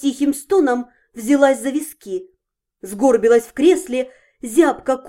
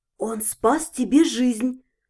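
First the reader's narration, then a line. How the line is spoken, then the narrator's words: Whisper. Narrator (Russian): прошептала Зальфия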